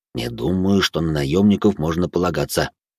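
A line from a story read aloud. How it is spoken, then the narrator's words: Big man, near whisper. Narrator (Russian): практически шепотом произнес здоровяк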